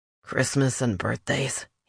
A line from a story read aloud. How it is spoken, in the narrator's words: he mumbled